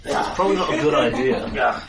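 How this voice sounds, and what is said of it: Character voice with an accent. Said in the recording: “Where's that accent? Where's that accent come from?”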